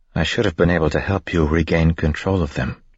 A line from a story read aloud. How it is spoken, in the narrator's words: she said quietly